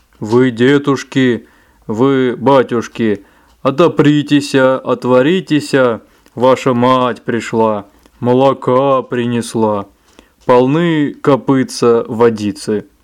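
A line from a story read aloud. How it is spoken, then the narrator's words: Deep thick shout. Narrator (Russian): закричал своим толстым голосом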